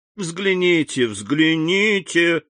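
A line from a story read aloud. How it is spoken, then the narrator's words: Laughing answer. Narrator (Russian): отвечал, смеясь Максимилиан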